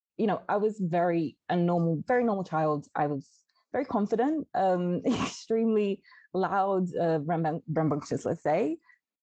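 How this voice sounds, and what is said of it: British accent. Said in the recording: “hence the British accent”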